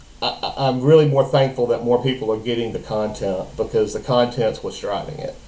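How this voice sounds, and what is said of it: Southern rural Mississippi accent. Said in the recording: “my radio voice that sounds like it came out of the backwoods of Mississippi”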